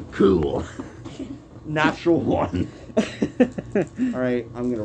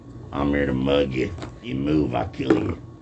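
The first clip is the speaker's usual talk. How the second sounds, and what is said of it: Put-on voice for a mugger character. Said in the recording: “can I do a voice for that guy?”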